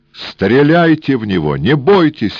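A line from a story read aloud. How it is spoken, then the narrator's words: Desperate shout while struggling. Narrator (Russian): отчаянно крикнул Эраст Петрович, пытаясь вырваться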